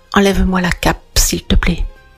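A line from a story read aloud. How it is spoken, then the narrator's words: Broken voice. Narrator (French): dit Borsellino d'une voix brisée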